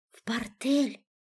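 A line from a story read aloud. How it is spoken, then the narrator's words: Whispered reply. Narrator (Russian): ответила шепотом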